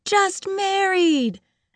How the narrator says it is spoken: we shouted

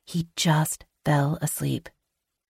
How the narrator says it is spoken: I whisper

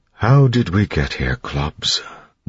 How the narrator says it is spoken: Breeze asked quietly

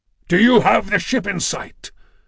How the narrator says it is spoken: His bull-throated roar

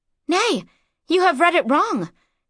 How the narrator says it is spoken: gasped Mara

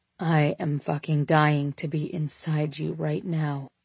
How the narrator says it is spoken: I whispered into her ear

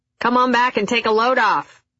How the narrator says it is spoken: Lydia yelled in her gravelly voice, more to annoy the PharmD than to welcome me

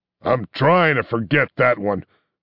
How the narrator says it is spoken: grumbled Chun Leung

